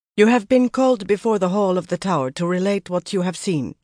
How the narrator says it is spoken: she said in a strong Tarraboner accent

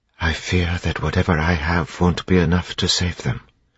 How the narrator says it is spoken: Sazed whispered

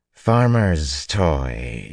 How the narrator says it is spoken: she drawled dismissively

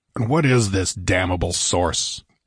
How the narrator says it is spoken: demanded Conan irritably

